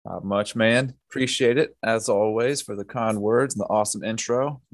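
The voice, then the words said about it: Smooth Southern US accent. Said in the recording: “the smooth talking Southern gentleman”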